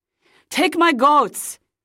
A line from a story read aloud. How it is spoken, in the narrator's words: uncle cried